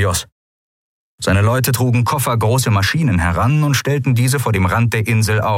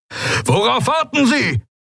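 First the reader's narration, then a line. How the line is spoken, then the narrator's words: Roaring. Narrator (German): brüllte Telios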